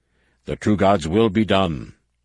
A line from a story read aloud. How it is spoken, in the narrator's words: Savonglaw thundered